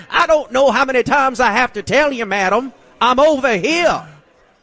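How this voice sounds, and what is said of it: Exaggerated thick Southern drawl. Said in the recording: “your accent was over the top ... you sound like Foghorn Leghorn”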